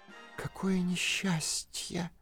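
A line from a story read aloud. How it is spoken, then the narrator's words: Turtle whispering. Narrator (Russian): прошептала черепаха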